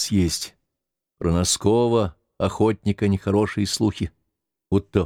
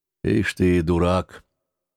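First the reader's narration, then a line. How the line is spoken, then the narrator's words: Delayed reply. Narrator (Russian): не сразу отозвался Тихон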